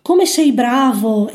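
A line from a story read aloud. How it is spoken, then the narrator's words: Old woman exclaiming. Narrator (Italian): esclama la nonnina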